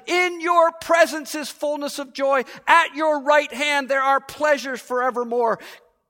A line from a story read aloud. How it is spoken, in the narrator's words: David exclaims